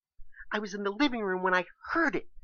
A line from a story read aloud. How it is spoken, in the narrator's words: Keisha explained hysterically